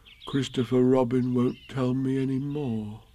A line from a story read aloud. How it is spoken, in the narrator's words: said sadly to himself